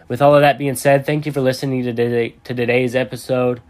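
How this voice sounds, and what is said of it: Strained voice, losing it. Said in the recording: “I'm kind of losing my voice”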